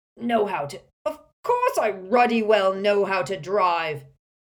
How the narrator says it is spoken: spluttered Uncle Vernon

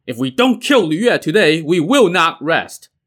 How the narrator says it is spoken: They all shouted

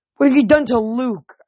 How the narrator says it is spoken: groaned

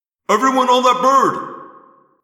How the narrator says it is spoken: Prince Jake roared

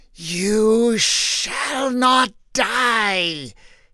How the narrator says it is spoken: hissed the snake

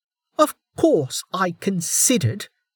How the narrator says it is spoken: Velika snapped, the end night mask doing nothing to conceal her fury

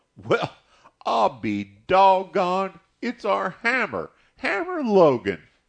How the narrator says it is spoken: someone cried

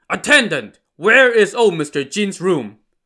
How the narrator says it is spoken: Lu Da thundered

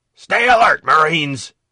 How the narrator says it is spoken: he roared

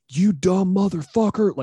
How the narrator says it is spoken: screaming at him in the parking lot

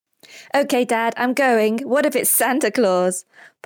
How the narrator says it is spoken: Pablo giggles

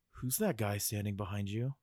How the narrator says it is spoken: Jimmy quietly nudged Mouse and said

